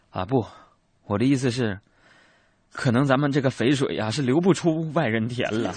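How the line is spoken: Sighing. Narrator (Chinese): 二叔又叹了一一口气说

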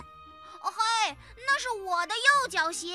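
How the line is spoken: Shouting. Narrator (Chinese): 有人在喊

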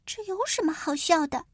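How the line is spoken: Quiet muttering. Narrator (Chinese): 婷卡小声的嘀咕着

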